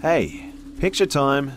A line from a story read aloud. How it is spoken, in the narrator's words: I shouted to my friends